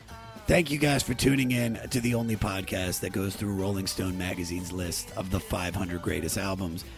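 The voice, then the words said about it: Hoarse, phlegmy, nearly lost voice. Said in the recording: “Even though you can't recognize my voice ... You got phlegm in your throat ... I'm sick, everybody. And uh, I lost my voice.”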